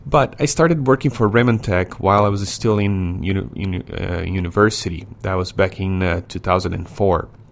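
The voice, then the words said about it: Brazilian-accented English. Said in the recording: “where my accent's from, I was born in Brazil ... that's where the accent's from”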